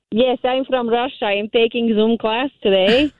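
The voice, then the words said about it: Fake Russian accent, fairly convincing. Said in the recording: “fake Russian accent ... probably getting better at it now ... can we hear a little bit of your Russian accent ... Oh, hey, that's pretty good ... That's really good, actually ... I'd buy it”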